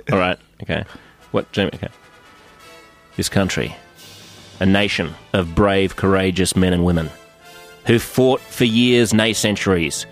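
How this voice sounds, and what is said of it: Australian accent. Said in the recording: “my Australian accent ... your real accent. Don't overdo it.”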